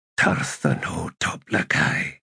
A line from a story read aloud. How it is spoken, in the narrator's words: he whispered